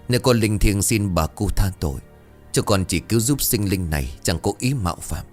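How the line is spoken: Fearful mumbled prayer. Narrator (Vietnamese): Bà Thần tay run rẩy, miệng lẩm bẩm khấn

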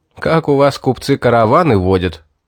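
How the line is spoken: Laughing question. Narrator (Russian): сквозь смех спросил я

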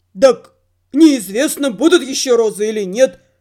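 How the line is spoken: Grumbling. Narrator (Russian): проворчал любитель жилеток на голое тело

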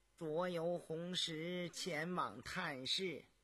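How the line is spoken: Flat, indifferent tone. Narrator (Chinese): 高无庸脸上毫无表情，淡淡地说道

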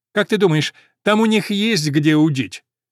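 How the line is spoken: Loud question. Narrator (Russian): Ламонт громко спросил

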